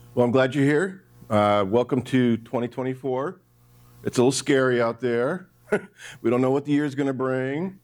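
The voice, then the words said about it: Hoarse, froggy voice. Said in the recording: “Sorry about my voice... It's just my voice is a little froggy. So if I have to get a cough drop”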